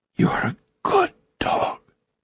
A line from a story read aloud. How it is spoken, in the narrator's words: Maya was crying, whispering